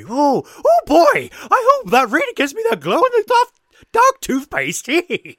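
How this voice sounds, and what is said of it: Cartoonish Scooby-Doo-like character voice. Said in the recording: “such a good impression ... you might have voiced Scooby Doo”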